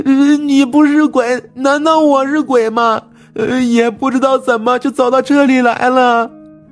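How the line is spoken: Girl wailing loudly. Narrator (Chinese): 那女孩嚎啕大哭

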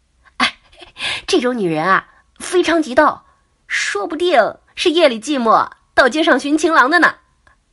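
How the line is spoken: Joking. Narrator (Chinese): 小美开玩笑的说

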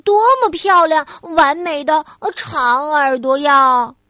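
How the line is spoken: Loud admiring. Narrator (Chinese): 小兔子大声的赞叹

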